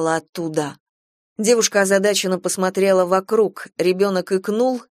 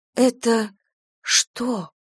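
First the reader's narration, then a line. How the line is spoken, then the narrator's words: Whispered question. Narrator (Russian): шепотом спросила Кира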